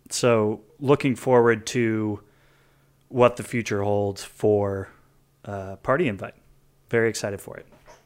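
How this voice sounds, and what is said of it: Flat deadpan delivery. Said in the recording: “deadpan delivery”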